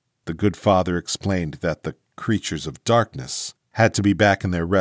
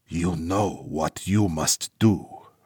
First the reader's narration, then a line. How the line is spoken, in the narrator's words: Father Kalman whispered